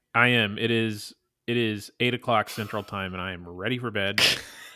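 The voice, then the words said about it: Tired-sounding voice. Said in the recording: “you sound really tired. ... can hear it in my voice”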